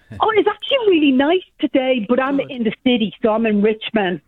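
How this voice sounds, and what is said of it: Noticeable regional accent. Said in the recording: “I'm loving your accent.”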